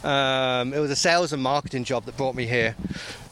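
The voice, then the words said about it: English accent. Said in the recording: “as you can tell by the accent, England, not Australia, for those who are thinking Australia”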